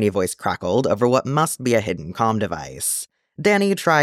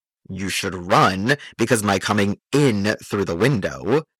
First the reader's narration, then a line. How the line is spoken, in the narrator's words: the man growled